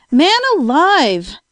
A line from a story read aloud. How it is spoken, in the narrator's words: cried